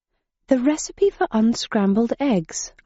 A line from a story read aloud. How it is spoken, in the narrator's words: I murmured